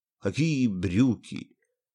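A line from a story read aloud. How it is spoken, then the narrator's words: Weak voice. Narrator (Russian): Слабым голосом спросил физик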